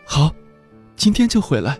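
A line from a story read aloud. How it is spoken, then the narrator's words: Holding back tears. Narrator (Chinese): 强忍着不让自己马上哭出来，只说了句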